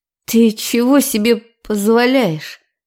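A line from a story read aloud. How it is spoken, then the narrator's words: Restrained hiss through teeth. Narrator (Russian): Сквозь зубы процедила, еле удерживая себя в рамках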